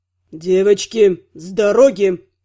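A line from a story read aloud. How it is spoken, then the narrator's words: Growl. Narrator (Russian): прорычал Кир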